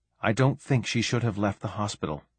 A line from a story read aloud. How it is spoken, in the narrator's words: muttered Saray